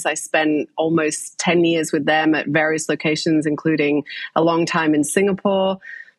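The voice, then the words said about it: English accent. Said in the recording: “you can probably tell by the accent, I'm from England originally.”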